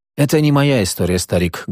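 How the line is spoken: Sad. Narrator (Russian): грустно говорит Слава

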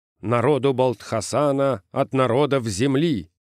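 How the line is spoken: Loud reading aloud. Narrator (Russian): громко прочитал инженер

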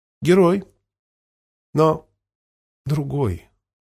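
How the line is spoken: Calm answer. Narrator (Russian): спокойно ответила Лилиан

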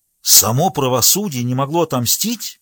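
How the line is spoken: Exclaiming. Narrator (Russian): воскликнул генерал

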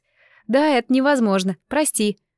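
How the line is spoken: Groaning. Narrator (Russian): сэмпай застонал

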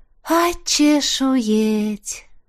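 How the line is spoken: Breathless exhale. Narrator (Russian): выдохнула Сильви

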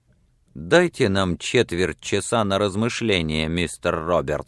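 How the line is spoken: Plain. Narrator (Russian): говорит

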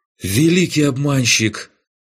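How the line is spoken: Breathed out. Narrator (Russian): выдохнул Райнек

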